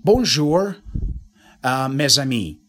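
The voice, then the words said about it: French phrase in American accent. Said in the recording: “I want to speak, I don't know, foreign language with an American accent ... I'm now speaking French using the pronunciation rules of English ... using the American pronunciation”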